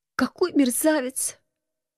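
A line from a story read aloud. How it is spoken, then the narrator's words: Quiet sob. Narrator (Russian): тихо всхлипнула я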